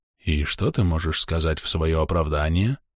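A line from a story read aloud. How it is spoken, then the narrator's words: Quiet hiss. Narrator (Russian): тихо прошипел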